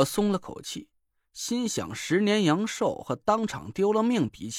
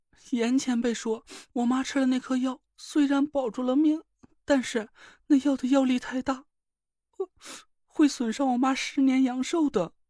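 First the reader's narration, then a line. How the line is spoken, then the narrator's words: Crying. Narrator (Chinese): 宁珂哭道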